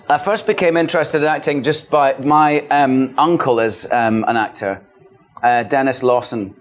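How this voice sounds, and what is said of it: Scottish accent. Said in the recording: “You were born and raised in Scotland. That's not just affectation you're hearing. ... Scottish accent”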